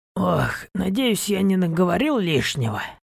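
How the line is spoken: Tired. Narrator (Russian): устало произнес

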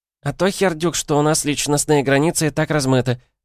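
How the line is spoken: Pompous squeak. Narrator (Russian): важно пискнула Вё

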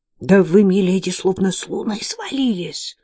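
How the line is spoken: Maid's whispered reply. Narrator (Russian): прошептала ей в ответ горничная

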